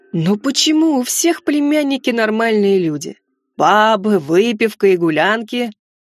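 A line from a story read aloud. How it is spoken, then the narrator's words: Hungover groaning uncle. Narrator (Russian): С больной головой, постоянно прикладываясь к графину с вином, стонал дядя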